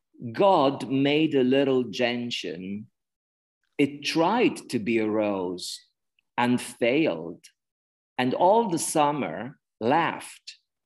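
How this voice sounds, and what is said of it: English with an Italian accent. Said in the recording (Italian): “scusate se ho l'accento anglo-italiano”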